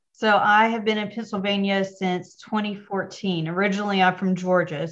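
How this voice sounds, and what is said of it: Slight Southern twang accent. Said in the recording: “if you hear a little twang, that's where it comes from ... I love your accent”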